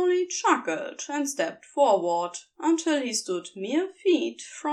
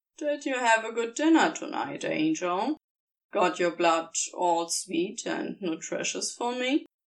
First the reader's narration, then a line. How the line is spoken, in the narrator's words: sighed, some of his annoyance abating